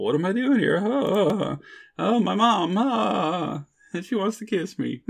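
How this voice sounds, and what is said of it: Impression of Marty McFly. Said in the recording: “that's great Marty impersonation”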